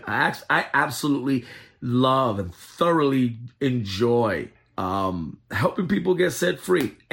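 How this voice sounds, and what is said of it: Giddy, excited voice. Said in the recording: “hear the giddiness in my voice... I'm all excited and rejoicing”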